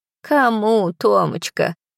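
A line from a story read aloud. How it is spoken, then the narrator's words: Old woman sighing. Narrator (Russian): вздохнула бабулька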